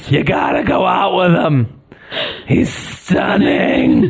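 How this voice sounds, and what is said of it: Raspy smoker aunt impression. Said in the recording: “do an aunt impression. She always like has a smoking issue ... haggard smokers”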